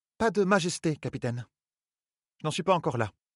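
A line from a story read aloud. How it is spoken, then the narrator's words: Curt speech. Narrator (French): dit sèchement Elaine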